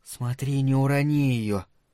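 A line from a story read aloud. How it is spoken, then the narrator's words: Whisper. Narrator (Russian): прошептала Элли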